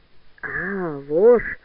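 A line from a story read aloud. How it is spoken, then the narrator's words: Hoarse wheeze. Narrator (Russian): прохрипел в ответ Пелюгин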